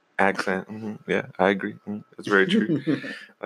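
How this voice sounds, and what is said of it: Put-on English accent. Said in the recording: “But with your English accent.”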